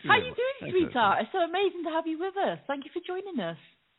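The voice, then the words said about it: British accent. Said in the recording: “The UK... I heard an accent.”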